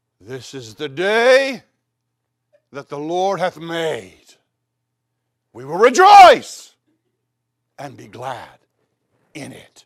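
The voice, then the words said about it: Poetic imitation of another person's voice. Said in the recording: “he could definitely like say things poetically ... my imitation of Robert Schuller”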